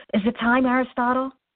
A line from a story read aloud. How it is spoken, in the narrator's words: he blurted